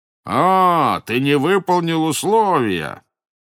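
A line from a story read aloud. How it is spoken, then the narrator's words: Angry shout. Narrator (Russian): закричал злобно Косе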